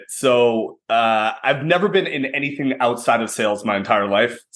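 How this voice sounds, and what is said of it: Slight Canadian accent. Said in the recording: “from Canada. And Vancouver, Canada ... the little accent there”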